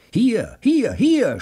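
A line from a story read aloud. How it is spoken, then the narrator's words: Excited shout. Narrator (German): schrie der aufgeregte Joe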